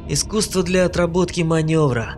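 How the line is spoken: Amused snort. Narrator (Russian): хмыкнул Шнайдер

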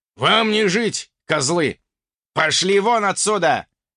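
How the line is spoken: Impatient jarl barking. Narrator (Russian): рявкнул утративший терпение ярл

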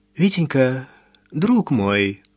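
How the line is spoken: Timid. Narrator (Russian): робко заговорила Изаура Петровна

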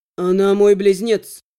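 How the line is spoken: Even voice. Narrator (Russian): Ровным голосом ответил ему Фьер

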